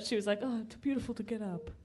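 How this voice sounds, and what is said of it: Put-on Italian accent. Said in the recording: “That's my accent for her too, by the way. ... She doesn't have an Italian name or an Italian voice.”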